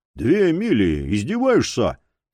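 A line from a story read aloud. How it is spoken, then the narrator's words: Grumbling. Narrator (Russian): проворчал Джерри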